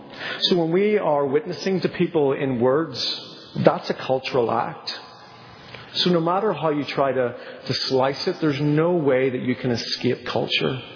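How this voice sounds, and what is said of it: Northern Irish accent. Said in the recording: “with a weird accent ... being from Northern Ireland”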